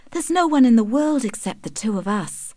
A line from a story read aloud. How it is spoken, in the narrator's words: sighed Tess